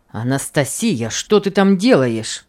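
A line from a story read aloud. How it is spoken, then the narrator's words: Grumbling husband. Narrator (Russian): ворчал на нее муж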